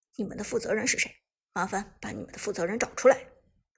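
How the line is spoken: Deep, stern question. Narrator (Chinese): 苏哲立即沉声问道

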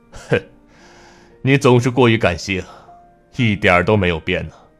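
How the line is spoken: Sudden laugh. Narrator (Chinese): 展望沉默一呼，忽然笑了

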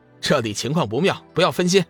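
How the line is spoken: Laughing mock scolding. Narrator (Chinese): 龙宇自然明白他的意思，笑骂道

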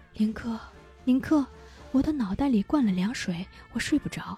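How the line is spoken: Quiet, hushed voice. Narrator (Chinese): 他小声对父亲说

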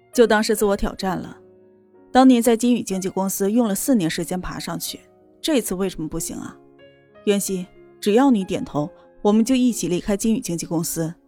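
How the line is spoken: Faint smile. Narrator (Chinese): 严立浩淡淡一笑

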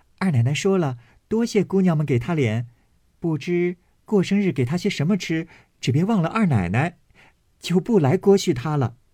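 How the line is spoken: Cheerful, smiling. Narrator (Chinese): 丫头笑着去了，半日回来，说

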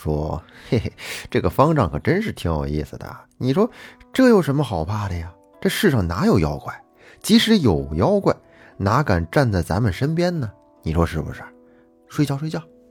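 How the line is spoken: Giggling at bedside. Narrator (Chinese): 他俩就在枕边嬉笑道

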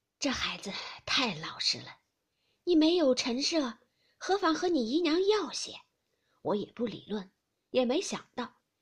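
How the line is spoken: Sighing. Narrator (Chinese): 贾母叹道

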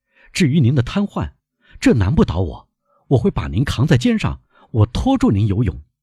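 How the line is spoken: Loud. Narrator (Chinese): 戴斯大声说

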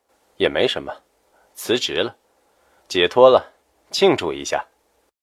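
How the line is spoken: Flat, casual. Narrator (Chinese): 夏医生淡淡道

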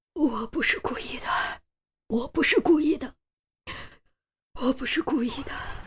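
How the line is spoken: Trembling middle-aged man mumbling. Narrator (Chinese): 卡车司机是个四十多岁的中年男子，瑟瑟发抖，嘴里不停喃喃重复着

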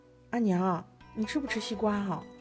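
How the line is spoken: Timid, quiet. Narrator (Chinese): 师姐小声翼翼地说道

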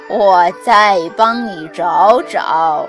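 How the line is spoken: Old immortal, laughing. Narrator (Chinese): 老神仙笑着说

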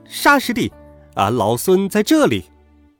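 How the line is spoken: Loud shout. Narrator (Chinese): 孙悟空在八戒耳边忍不住高声叫道

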